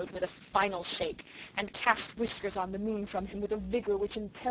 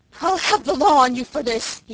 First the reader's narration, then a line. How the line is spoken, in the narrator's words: he gasped